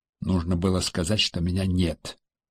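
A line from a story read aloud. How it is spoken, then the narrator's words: Quiet remark. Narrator (Russian): тихо заметил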